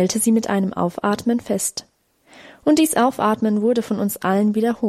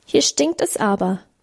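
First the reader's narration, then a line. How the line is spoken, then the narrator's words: Squeaky voice. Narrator (German): piepste Hermann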